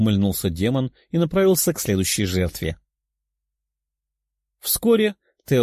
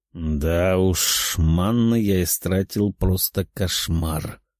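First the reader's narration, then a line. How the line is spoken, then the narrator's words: Demon's sad sigh. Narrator (Russian): Демон грустно вздохнул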